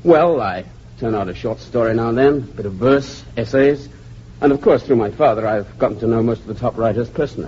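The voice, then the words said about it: English accent. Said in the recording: “You have an English accent.”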